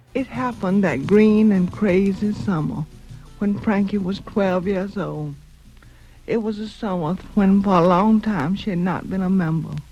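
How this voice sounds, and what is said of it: Marked, cultured Southern US accent. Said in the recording (French): “son accent chantant du Sud, très marqué ... un accent du Sud marqué mais cultivé”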